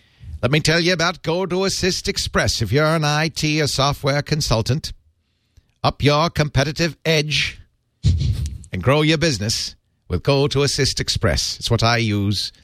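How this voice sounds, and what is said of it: Drifting put-on Irish accent. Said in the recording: “Now I'm starting to sound Irish... I've got a real problem with accent drift... Suddenly we're in Galway.”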